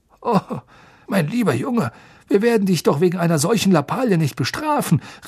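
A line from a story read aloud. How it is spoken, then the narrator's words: Called impatiently. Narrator (German): rief Fudge ungeduldig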